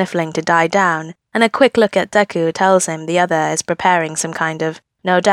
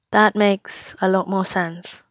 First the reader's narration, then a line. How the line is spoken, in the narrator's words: he says quietly